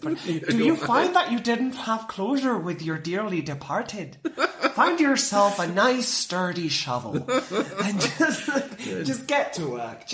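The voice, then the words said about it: Put-on Irish accent. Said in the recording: “I don't know why I'm doing an Irish accent”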